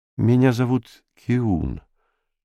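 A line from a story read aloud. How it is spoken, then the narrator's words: Sad. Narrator (Russian): печально сказал горожанин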